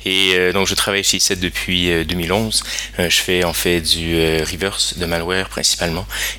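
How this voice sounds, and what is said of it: Slight Canadian French accent. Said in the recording (French): “le petit accent qui est là, et c'était l'accent canadien”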